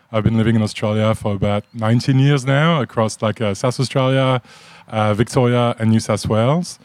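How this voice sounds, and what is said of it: French accent. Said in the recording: “If you picked up on an accent, I'm from France.”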